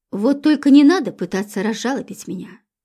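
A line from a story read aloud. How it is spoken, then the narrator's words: Irritated. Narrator (Russian): сказал раздраженно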